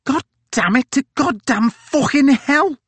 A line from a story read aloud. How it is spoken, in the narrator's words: cried Hickey